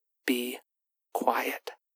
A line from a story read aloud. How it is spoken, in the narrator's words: Ash said, mouthing more than whispering the syllables